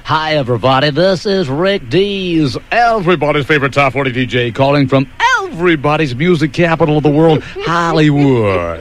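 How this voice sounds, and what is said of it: Booming DJ radio announcer voice. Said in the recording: “You caught me doing my radio voice ... It sounds like it.”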